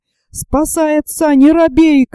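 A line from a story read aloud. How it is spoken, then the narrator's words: Loud shout. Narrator (Russian): крикнул громким голосом Дмитрий Андрею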